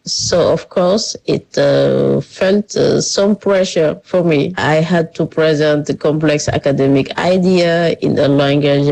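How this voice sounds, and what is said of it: French accent in English. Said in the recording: “my French accent”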